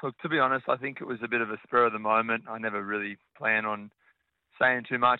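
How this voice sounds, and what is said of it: Hoarse, partly lost voice. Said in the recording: “As you can tell, I've kind of lost my voice a little bit after the game last night”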